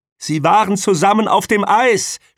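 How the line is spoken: Shouting. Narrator (German): schrie sie

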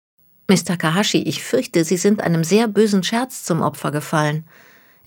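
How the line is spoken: Gentle voice. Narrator (German): erwiderte Natalie mit sanfter Stimme

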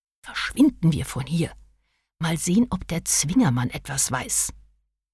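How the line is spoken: Whisper. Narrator (German): flüsterte Agatha der jungen Frau zu

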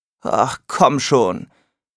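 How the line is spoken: Growling. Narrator (German): knurrte ich

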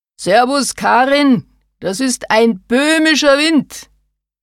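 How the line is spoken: Shouting over bells and whips. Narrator (German): schrie der Wirtshaussepp gegen das Geläut von Kuhglocken und Peitschenschnalzen an

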